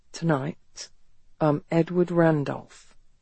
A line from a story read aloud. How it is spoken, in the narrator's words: she heard him say quietly